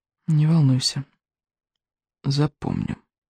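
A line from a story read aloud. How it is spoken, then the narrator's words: Whispered reply. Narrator (Russian): шепотом отозвался Икинг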